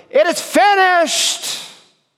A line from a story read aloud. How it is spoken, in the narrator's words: When he pulled himself up on those nails to get the fullest breath, and he shouted